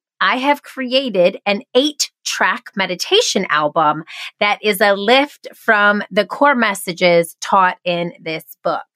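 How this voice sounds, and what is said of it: Nasal twangy voice. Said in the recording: “this nasal twang voice”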